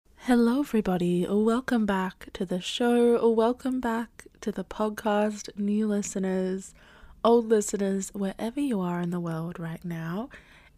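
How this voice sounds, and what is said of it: Croaky, sick-sounding voice. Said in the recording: “I'm a little bit under the weather. I unfortunately have COVID ... my voice is a little bit croaky and gross”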